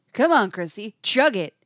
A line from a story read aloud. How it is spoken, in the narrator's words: he says, voice projecting loudly again